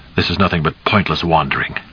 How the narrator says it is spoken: said curtly

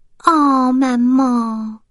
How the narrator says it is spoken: whined

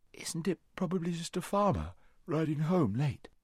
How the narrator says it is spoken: said Shasta with a yawn

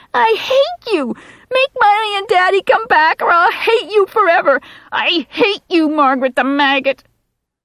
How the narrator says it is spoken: Ralphie Carver is now shrieking

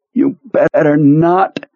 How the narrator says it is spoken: Pearly groaned

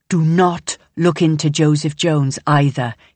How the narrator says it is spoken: he says, his tone as vicious and as sharp as a snake's

